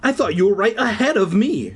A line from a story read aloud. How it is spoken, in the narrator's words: she cried